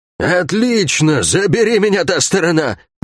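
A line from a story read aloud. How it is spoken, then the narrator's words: Drunkard's exclamation. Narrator (Russian): воскликнула Лагорец с пропитым лицом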